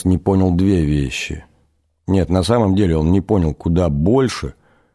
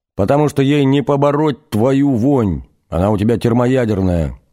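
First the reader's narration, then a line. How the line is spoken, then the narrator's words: Sudden deafening yell. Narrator (Russian): сказала Надя и заорала вдруг так, что у Наноса заложила уши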